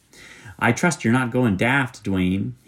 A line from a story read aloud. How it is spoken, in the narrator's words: he said impatiently